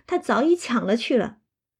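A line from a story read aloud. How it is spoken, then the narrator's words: Laughing. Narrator (Chinese): 笑道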